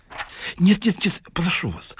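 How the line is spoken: Pleading. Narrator (Russian): взмолился Ларичев

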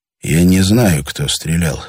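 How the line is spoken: Quiet. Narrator (Russian): сказал тихо Андрей Витасу

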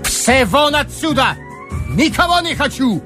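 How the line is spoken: Furious shouting. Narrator (Russian): бешено кричал Бек Агамалов

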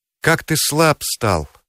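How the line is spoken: Sighing. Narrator (Russian): вздохнула жена

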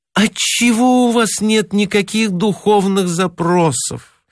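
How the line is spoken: Moaning woman. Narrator (Russian): стонала она по вечерам

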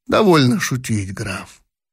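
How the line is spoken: Grimly serious. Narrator (Russian): сказал затем Бенниксен, становясь мрачно серьезным

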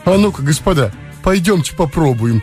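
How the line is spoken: Eager pleading tone. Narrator (Russian): сказал Лбов молящим тоном с загоревшимися глазами

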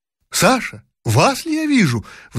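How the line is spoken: Sudden exclamation. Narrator (Russian): вдруг воскликнула Жеребцова

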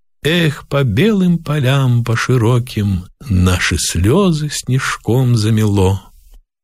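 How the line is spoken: Old man singing, ringing, wistful. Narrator (Russian): Старик запел звенящим томительным голосом

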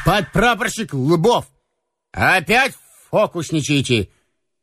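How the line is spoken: Mock-stern call. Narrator (Russian): притворно строго окликнул его Слива

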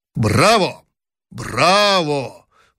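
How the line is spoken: Emperor's sudden loud voice. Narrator (Russian): вдруг громко сказал император

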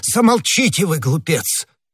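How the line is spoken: Plain. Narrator (Russian): сказал кардинал

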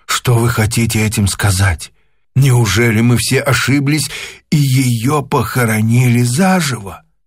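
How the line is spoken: Muffled groan. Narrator (Russian): Закрыв лицо руками, Артур глухо застонал

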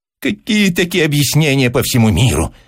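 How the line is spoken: Shrill whine. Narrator (Russian): заныл Персиков визгливо и пожелтев

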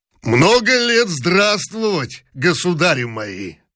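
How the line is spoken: Hoarse deep huntsman voice. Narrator (Russian): хриплым голосом доезжачего пробасил

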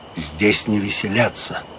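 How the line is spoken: Quiet. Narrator (Russian): Агюст де Калинкур тихо сказал

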